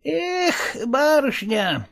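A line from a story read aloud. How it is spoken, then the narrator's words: Sighing. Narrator (Russian): вздохнул только Никита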